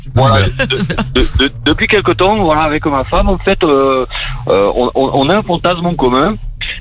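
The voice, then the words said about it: Southern French accent. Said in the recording (French): “Et t'as l'accent du sud”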